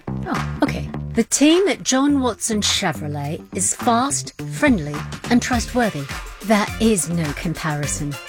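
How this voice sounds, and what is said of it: Put-on English accent. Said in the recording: “That customer didn't have an English accent.”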